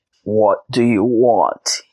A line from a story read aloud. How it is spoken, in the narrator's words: he croaked